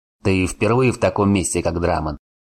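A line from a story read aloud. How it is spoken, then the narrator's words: Smirking grunt. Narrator (Russian): хмыкнул Варн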